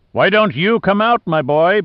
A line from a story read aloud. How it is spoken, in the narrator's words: Briscoe roared over the wind